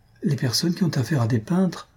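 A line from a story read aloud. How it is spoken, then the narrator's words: Said timidly. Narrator (French): dit timidement Madame Jujube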